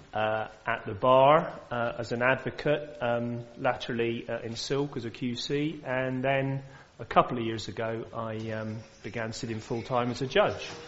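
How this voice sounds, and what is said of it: Cornish accent. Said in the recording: “your lovely accent ... Cornwall”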